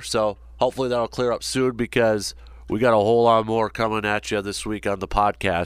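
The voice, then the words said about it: Congested voice from a cold. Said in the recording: “As you can probably tell from my voice, I'm still dealing with a little bit of a cold here.”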